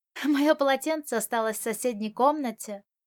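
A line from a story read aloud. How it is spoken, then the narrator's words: Laughing. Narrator (Russian): рассмеялся Можань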